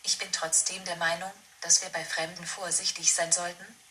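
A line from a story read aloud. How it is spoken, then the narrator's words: Plain. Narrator (German): sagte Hänsel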